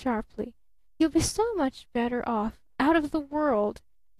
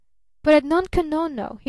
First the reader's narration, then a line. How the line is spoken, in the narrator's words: he cried eagerly